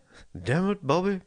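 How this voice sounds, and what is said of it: Hank Hill cartoon voice impression. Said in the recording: “the robot with a Bobby from King of the Hill accent”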